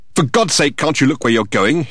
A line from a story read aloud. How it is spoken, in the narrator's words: he exclaimed